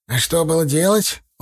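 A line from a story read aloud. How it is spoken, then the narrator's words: Sigh. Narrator (Russian): он вздохнул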